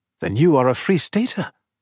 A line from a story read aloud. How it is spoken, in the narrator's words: he exclaimed